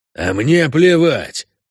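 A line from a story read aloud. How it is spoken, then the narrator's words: Angry objection. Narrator (Russian): зло возражал ему один из пассажиров князя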